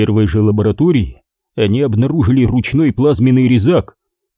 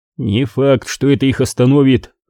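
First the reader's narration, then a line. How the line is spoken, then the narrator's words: Grim remark. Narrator (Russian): мрачно заметил Олтмен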